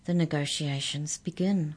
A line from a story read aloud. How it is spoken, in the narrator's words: murmured the mouse